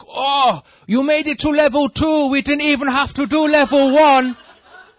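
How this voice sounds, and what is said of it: Attempted German accent, not convincing. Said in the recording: “Sorry, that's not a German accent.”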